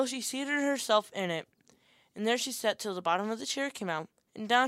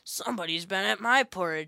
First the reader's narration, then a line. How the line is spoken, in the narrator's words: said the great huge bear in his great rough, gruff voice